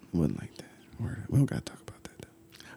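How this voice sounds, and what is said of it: Mellow, calm NPR-style voice. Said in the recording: “I went NPR voice ... I went all mellow on you”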